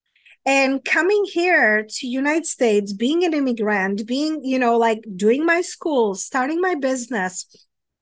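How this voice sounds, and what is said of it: European accent. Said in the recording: “as you can maybe tell by my accent, I am not from United States. So, you know, coming from Europe”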